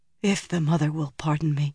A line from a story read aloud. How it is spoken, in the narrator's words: said in a faint voice